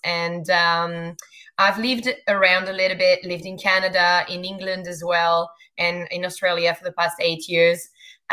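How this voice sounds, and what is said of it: Thick French accent. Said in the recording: “The French accent is something that is really thick”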